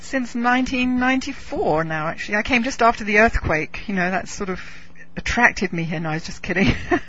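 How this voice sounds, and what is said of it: English accent. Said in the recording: “You still have the English accent, which I find very charming.”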